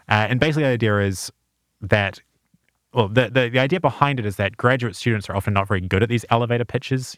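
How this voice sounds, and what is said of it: New Zealand accent. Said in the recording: “I'm from New Zealand, just because the accent can be misleading.”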